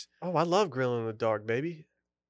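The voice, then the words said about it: Sultry, seductive voice. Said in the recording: “talk like a sexy boy ... A little sultry for a second there.”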